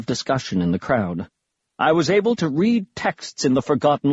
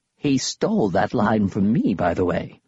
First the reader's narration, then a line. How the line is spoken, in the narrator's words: Grandpa Smedry whispered to us